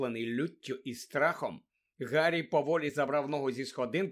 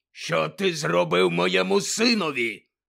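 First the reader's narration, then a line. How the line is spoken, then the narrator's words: Menacing growl. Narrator (Ukrainian): загрозливо прогарчав він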